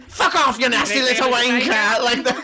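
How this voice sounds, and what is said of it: Put-on Cockney accent. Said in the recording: “they're like all Cockney ... you sound like a chimney sweep”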